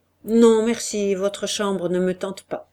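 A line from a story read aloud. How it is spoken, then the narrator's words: Curt reply. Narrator (French): Olivier répondit sèchement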